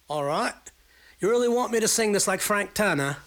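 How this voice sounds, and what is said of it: Put-on Wessex English accent. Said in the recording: “the same question in a Wessex accent”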